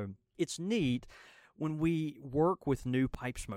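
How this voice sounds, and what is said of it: Usual voice. Nothing is said of it.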